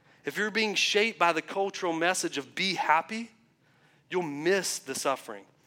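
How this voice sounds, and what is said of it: Southern American accent. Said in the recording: “I know my southern accent, I know it just sounded like I said feel”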